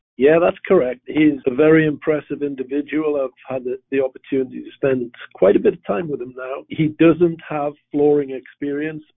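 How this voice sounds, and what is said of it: Slight Northern English accent. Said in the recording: “you've got a little bit of a British accent. You're from Northern England originally, right? ... from Newcastle up in the northeast of England”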